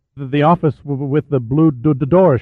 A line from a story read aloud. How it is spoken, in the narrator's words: stammered